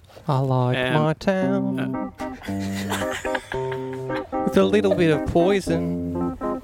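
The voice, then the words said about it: Raspy gravelly singing voice. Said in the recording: “Tom Waits at his finest. ... Just as like raspy as Tom Waits is already. ... So raspy.”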